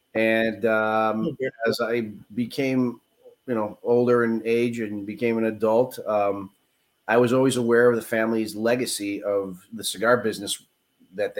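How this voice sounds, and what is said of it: Chicago accent. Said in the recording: “I was born in Chicago, which is why you probably hear the accent.”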